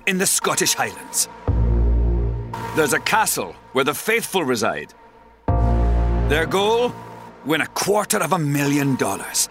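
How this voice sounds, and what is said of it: Scottish brogue. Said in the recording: “I just love that brogue. I just love that Scottish brogue”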